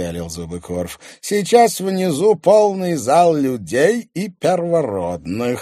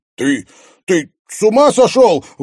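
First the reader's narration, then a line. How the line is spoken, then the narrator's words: Horrified shout. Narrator (Russian): в ужасе выкрикнул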